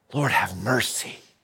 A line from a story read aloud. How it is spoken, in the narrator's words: The other man cries out